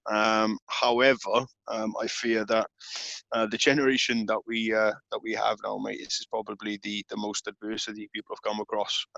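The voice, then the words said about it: British accent. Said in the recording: “your accent ... I'm in Her Majesty's Great Britain”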